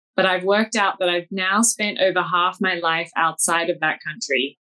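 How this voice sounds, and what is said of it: Australian accent. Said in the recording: “as you can hear from my accent, I'm not from the US. I come from Sydney, Australia.”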